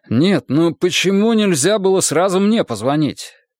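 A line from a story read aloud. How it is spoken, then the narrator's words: Irritated repeated question. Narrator (Russian): в который раз раздраженно спросил он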